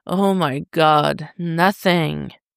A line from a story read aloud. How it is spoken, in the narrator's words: Tim groans